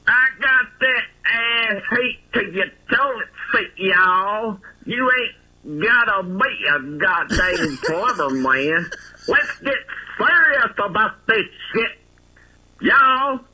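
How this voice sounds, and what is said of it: Impersonation of the host's voice. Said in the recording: “the best impersonation”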